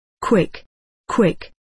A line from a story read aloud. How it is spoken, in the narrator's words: said the former